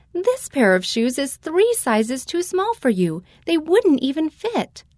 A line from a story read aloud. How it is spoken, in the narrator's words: My mother laughed and said